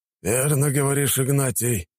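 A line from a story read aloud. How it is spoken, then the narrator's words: Sighing. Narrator (Russian): вздохнул Николай Федорович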